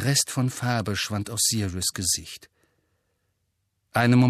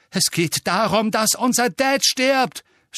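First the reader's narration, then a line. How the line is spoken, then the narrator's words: Shouted. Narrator (German): schrie George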